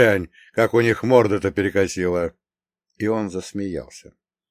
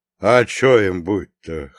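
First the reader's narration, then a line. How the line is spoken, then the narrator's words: Snort. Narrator (Russian): хмыкнул Прохор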